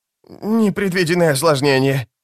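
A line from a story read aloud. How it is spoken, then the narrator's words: Whining. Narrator (Russian): проскулил он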